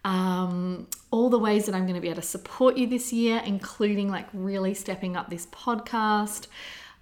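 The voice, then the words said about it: Excited, upbeat voice. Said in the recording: “you might be able to hear it in my voice, like I'm just feeling really, really excited ... Just really, really excited.”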